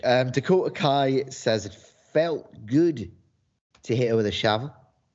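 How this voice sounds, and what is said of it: Put-on New Zealand accent. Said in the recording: “compliment ... on his New Zealand accent... It's passable, I think.”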